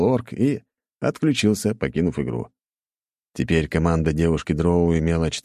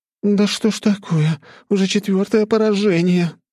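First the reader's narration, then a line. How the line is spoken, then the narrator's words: Groan. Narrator (Russian): простонала Блэр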